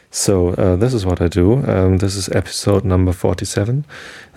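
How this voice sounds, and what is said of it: German accent speaking English. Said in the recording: “German is my mother tongue and English is just a learned language... my strange accent”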